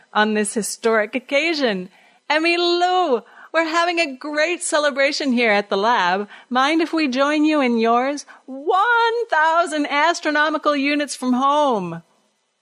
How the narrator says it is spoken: he cried

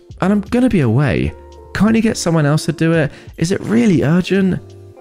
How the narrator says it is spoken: I whined

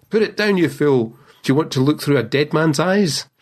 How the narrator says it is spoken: old Baxter shouted out to him from the bed

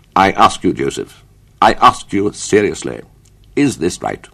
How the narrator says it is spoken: His father said in his severest tones

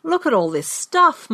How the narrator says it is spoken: my brother exclaimed

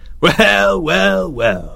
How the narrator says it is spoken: sneered

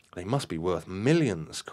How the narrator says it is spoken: cried Marion in astonishment

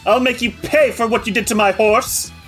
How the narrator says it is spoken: snarling, says

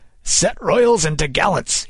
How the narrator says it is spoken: he cried

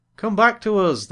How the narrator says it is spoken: they cried

